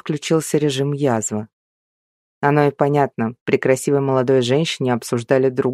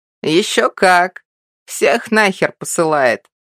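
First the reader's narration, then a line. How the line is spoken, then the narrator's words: Old man's chuckle. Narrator (Russian): хохотнул дед Матвей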